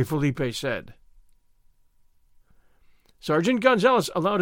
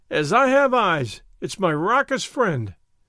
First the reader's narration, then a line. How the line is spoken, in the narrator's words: he cried